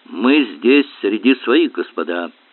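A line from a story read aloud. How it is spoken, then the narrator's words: Plain. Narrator (Russian): говорит Палин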